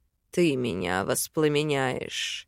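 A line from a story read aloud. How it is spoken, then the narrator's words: Amused snort. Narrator (Russian): хмыкнул он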